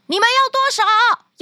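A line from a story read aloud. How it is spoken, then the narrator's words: Loud shouting. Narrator (Chinese): 汤姆 他继续大声的叫道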